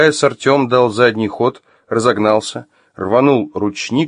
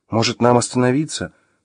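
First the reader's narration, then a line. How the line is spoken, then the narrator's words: Timid suggestion. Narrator (Russian): робко предложила Маша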